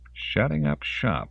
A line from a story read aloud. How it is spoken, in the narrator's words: Lawrence muttered to himself